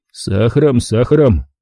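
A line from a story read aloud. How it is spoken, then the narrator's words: Grumbled. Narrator (Russian): пробурчал я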